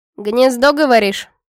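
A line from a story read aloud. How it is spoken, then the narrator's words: Snort. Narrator (Russian): хмыкнула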